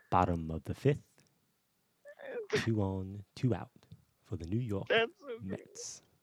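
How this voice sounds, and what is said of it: Imitates another person's voice. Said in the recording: “Imagine Morgan Freeman calling a baseball game.”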